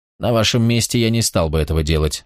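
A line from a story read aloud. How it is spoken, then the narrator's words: Calm. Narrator (Russian): спокойно сказал Босх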